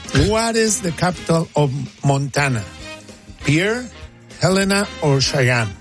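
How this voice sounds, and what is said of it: Speaks with a noticeable accent. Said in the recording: “by now you guys are used to my accent ... you always complain about my accent”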